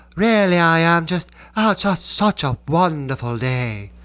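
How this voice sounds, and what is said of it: Old-film aristocratic American accent. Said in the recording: “this aristocratic American accent, and you would hear it like in the movies ... It wasn't an English accent, but it was Americans sounding like total D-bags.”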